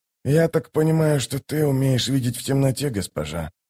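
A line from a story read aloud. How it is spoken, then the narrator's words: Mumbling. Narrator (Russian): пробормотал Ток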